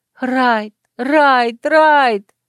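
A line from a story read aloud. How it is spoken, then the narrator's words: Impulsive mental scream. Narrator (Russian): вопила ментально, поддавшись какому-то порыву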